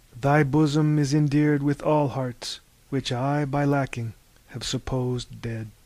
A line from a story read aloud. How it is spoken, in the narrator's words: he sighed to himself